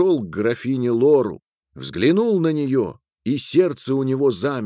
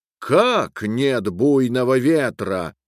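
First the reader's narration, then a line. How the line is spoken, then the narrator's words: Menacing shout. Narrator (Russian): грозно крикнула жестокая графиня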